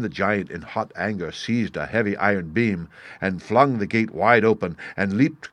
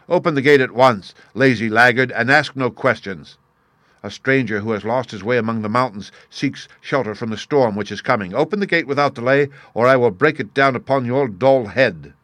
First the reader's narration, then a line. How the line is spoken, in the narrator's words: angrily and in threatening tones, answered